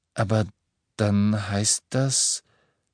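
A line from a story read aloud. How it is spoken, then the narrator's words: Slow, suppressing skepticism. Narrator (German): sagte Hermine langsam, bemühte, einen skeptischen Unterton zu vermeiden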